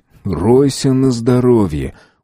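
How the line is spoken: Weary speech. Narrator (Russian): устало сказал Самбур

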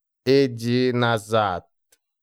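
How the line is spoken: Rough laugh. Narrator (Russian): Тишина грубо засмеялась

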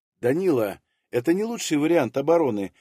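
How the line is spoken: Soft disagreement. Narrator (Russian): мягко не согласилась со мной Якутова

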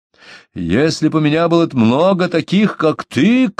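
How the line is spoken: Shouted. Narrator (Russian): крикнул он толстяку

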